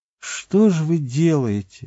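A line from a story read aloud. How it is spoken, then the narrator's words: Glum, dispirited tone. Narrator (Russian): уныло сказал начальник отряда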